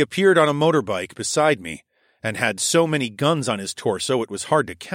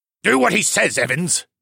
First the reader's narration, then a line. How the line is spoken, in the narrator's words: the large man who had guarded the CO's office barked